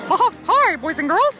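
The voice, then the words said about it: Mickey Mouse cartoon voice impression. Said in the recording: “your best Disney character impersonation? ... I just met Mickey Mouse. in the flesh.”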